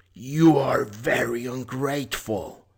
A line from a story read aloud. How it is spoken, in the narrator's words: said the beast in a terrible voice